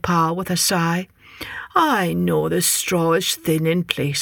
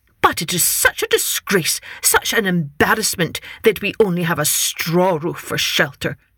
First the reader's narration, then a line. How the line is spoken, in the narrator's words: snapped his wife